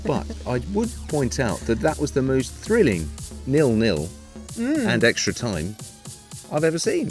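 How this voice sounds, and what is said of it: Liverpool accent. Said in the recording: “I do have a very soft spot for Liverpool, as you can tell from my accent.”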